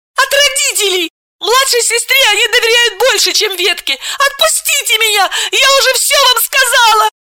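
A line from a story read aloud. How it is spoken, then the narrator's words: Pleading again. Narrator (Russian): Снова взмолилась Миронова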